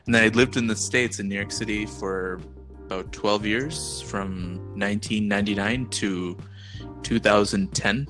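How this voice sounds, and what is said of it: Mixed Indian and American accent. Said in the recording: “that's where you get your accent from ... that's where I get my weird accent from”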